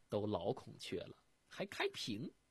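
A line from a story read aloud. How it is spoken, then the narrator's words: Laughing. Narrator (Chinese): 儿媳妇一听就笑了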